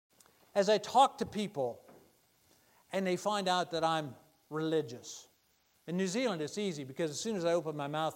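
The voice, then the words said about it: American accent. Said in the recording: “they hear the American accent, and they say, oh, you're from North America”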